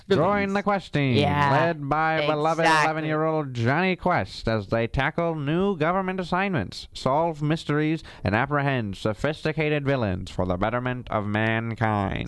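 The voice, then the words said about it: Put-on transatlantic accent. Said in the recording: “You have to say that in like a very transatlantic accent ... You have, like, the guy's transatlantic accent down.”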